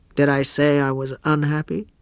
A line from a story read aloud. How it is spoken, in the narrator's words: Osmond answered gravely